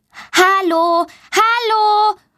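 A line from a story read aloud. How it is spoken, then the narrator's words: Loud calling. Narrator (German): ruft laut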